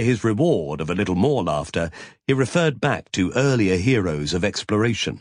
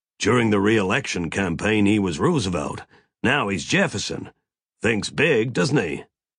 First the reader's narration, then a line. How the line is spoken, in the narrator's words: Mac growled